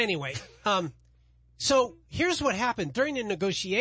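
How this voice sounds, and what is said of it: Usual voice. Nothing is said of it.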